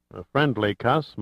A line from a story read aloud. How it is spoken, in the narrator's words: muttered Sandecker